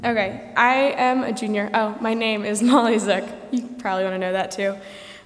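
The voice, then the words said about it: Cracky, hoarse sick voice. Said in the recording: “my voice is a little cracky. I'm a bit sick.”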